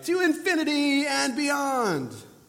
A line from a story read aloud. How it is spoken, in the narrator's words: our dog, shouting